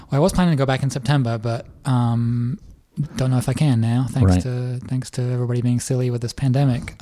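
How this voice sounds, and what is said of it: English accent. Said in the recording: “You still got your English accent, of course”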